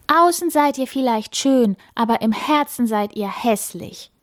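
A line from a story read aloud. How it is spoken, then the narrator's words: Calling. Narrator (German): ruft sie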